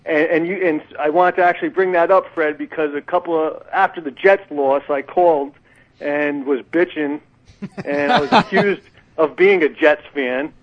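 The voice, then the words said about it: Rhode Island accent. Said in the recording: “you guys should know what a Rhode Island accent sounds like... I can't get rid of my Rhode Island accent”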